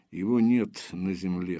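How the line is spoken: Muttered. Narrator (Russian): буркнул Железовский

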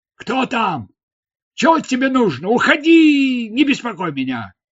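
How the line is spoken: Shouting. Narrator (Russian): кричал он

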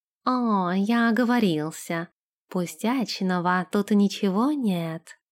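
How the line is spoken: Plain. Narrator (Russian): сказал он

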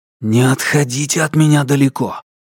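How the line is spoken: Anxious hiss. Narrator (Russian): прошипел Алексей с колотящимся сердцем

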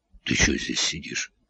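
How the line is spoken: Hoarse question. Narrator (Russian): спросил хрипло

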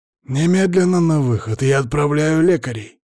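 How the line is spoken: Growled. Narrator (Russian): зарычал Палыч

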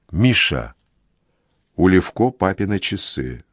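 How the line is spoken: Quiet. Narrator (Russian): Варя тихо сообщает

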